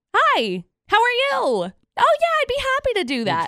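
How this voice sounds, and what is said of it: Pitched-up cheerful customer service voice. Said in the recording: “I have a customer service voice. ... you got to pitch it up a little bit ... So you pitch it up just a little bit.”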